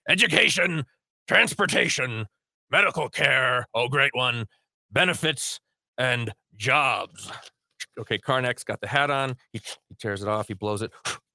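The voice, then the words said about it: Imitates another person's voice. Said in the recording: “my Karnak impression ... just imagine Ed McMahon”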